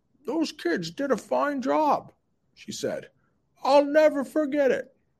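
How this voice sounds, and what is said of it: Old lady voice. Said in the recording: “do my old lady voice”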